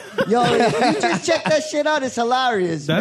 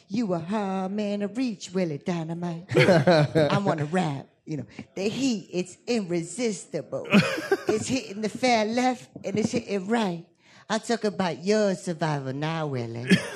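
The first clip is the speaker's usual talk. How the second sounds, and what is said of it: Imitates a film character's voice. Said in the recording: “did a very good impersonation.”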